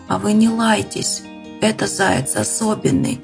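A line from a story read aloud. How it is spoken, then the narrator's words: Hoarse whisper. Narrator (Russian): хриплым шепотом сказал Ваня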